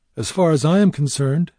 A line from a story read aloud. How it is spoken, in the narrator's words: Pinchot answered coolly